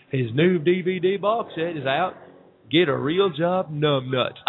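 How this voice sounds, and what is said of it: Impression of Dr. Phil. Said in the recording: “good impression.”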